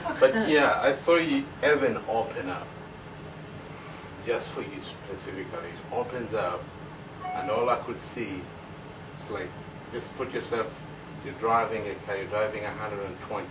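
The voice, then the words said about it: Speaks with an accent. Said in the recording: “accent. Understand my accent”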